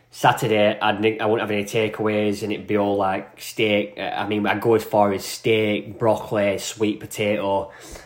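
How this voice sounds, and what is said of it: Northern English accent. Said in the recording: “you fucking hate my voice. You know, a voice from the north of like Burnley ... it's a fucking bad accent”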